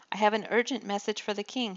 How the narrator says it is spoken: he cried

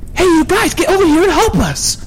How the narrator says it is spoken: shouted Jack

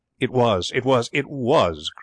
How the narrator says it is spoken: cried Elsa

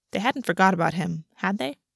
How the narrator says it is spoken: August laughed softly

